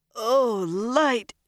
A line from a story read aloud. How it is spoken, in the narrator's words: she moaned